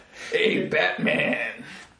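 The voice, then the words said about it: Gravelly imitated movie villain voice. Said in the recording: “You still haven't done the impersonation ... That's pretty good. ... Yeah, you had it more gravelly.”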